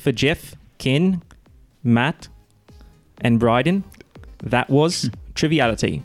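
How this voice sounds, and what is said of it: Attempted British accent, partly slipping. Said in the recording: “do it in the accent. ... That was pretty good. ... That's not bad. ... Triviality was the only thing that was British. I was pretty good on that all the way up until then. ... Nice try.”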